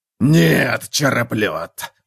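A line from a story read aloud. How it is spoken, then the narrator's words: Growling. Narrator (Russian): прорычал Готрек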